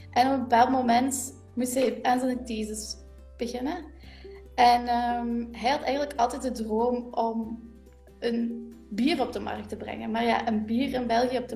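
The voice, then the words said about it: Limburg Flemish accent. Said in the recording (Dutch): “je hoort dat ook aan mijn accent ... kom van Limburg”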